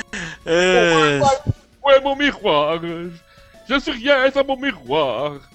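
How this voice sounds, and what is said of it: Cartoon character voice imitation. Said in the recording (French): “Si vous voulez avoir une belle imitation ... Simon Belmont de Captain N, ça ressemblait pas mal à ça.”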